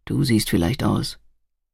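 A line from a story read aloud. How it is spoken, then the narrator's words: Murmur. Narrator (German): murmelte er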